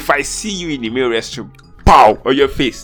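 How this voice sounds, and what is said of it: Angry, heated ranting voice. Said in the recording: “I sound very angry.”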